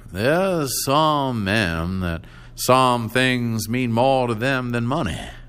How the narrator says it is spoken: he said slowly

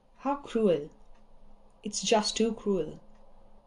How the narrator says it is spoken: Shinichi murmured

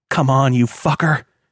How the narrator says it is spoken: he groaned

